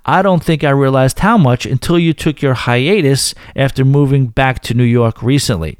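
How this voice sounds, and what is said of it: Northern New York accent. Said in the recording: “your accent ... that Northern New York accent ... for being angry or aggressive at first”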